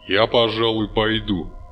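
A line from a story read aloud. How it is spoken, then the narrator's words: Plain. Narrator (Russian): сказал Фарнес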